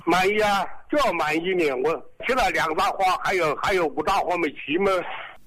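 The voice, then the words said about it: Regional Chinese accent. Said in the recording (Chinese): “我听您的口音”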